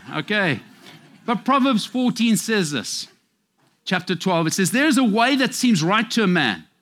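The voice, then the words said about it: Speaks with a noticeable accent. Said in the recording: “Siri doesn't have a cooking clue sometimes because it doesn't understand my accent.”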